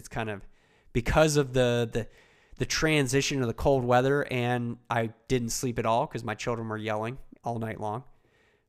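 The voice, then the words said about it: Slightly stuffy, congested voice. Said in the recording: “you might even still hear it in my voice. I have a little bit of a stuffiness in my own voice.”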